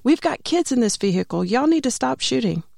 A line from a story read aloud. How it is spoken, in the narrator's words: Cindy said that she screamed